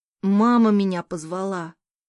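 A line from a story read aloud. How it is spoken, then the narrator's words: Grumbling son. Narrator (Russian): пробурчал сын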